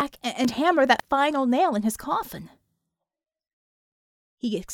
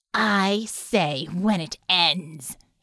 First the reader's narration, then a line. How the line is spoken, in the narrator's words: she snarled